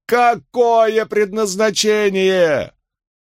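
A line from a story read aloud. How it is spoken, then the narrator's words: Three voices shouting together. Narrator (Russian): Трое на постаментах закричали одновременно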